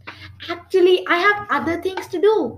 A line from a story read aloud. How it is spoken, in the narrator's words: he said nervously